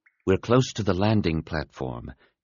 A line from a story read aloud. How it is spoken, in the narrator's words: Depa announced quietly